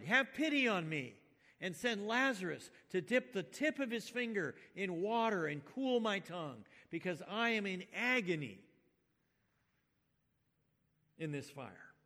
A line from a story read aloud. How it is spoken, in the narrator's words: the rich man cried